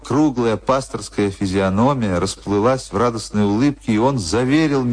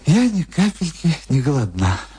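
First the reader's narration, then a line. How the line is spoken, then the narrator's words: Sighing. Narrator (Russian): вздохнула моя гостья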